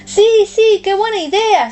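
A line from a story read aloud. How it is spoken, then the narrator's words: Overjoyed exclamation. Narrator (Spanish): exclama Tomás, loco de contento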